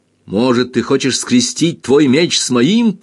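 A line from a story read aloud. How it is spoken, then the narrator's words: Shouting, trembling, mid-fight. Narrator (Russian): прокричал, отбиваясь, дрожит, как лист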